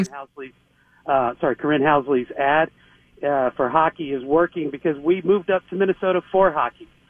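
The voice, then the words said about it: Texan accent. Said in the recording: “I'm a recent move-in from Texas ... pardon the accent here”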